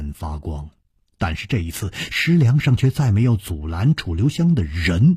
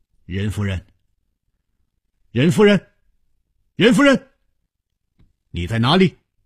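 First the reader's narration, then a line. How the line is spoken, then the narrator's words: Calling out. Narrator (Chinese): 他一面呼唤着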